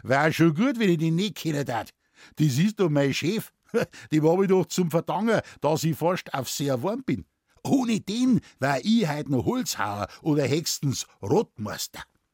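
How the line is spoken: Laughing. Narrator (German): Der Muckel lachte und sagte

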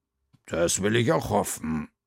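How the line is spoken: Growl. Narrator (German): knurrte Frau Krüger

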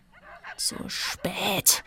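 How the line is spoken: Hissing. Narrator (German): zischte Radek

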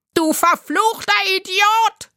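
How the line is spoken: Shouting. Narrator (German): schrie der Spitzbart

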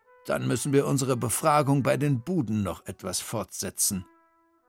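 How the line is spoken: Grumble. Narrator (German): brummte Frau Krüger

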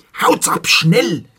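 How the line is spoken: Hissed. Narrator (German): zischte sie

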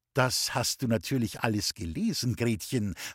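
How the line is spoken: Plain question. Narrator (German): fragte Frau Vollbeck

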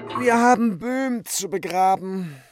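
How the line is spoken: Calling out. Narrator (German): rief Bibikin

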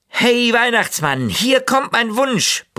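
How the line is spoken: Bellowing. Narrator (German): brüllte er

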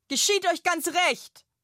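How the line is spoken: Loud call. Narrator (German): ruft die laute Lilly

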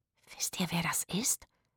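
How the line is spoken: Excited whisper. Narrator (German): wisperte Rufus aufgeregt

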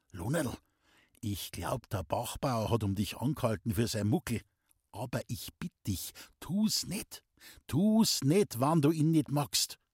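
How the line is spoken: Whisper. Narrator (German): flüsterte

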